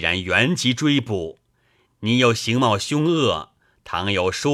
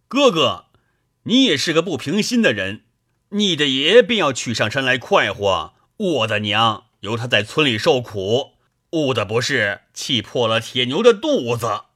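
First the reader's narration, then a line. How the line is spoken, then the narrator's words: Anxious, agitated shout. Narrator (Chinese): 李逵焦躁叫道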